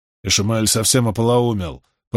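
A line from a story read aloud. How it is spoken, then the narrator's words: Grumbling mutter. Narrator (Russian): пробурчал Самоэль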